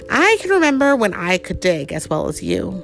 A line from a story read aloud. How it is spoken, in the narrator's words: sighed